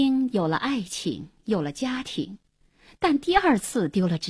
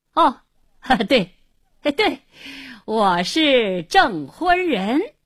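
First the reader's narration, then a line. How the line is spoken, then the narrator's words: Forced hearty laughter. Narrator (Chinese): 胡经理故意哈哈大笑，连声说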